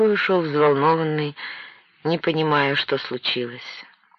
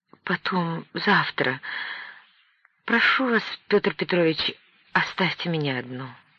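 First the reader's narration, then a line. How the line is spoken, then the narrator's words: Barely audible babble. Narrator (Russian): Наталья Николаевна пролепетала чуть слышно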